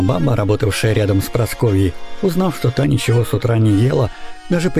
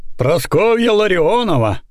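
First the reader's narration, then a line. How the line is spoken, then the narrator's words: Shouted. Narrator (Russian): выкрикнул он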